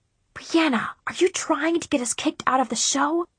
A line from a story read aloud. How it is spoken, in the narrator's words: I hissed